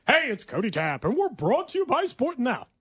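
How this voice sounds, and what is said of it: Fake radio announcer voice. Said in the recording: “You want me to do like a pretend voice? ... fake radio guy voice”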